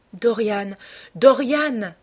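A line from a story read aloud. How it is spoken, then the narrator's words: Exclaimed. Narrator (French): s'écria-t-elle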